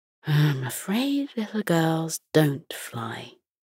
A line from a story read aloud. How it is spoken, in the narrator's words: Her grandmother muttering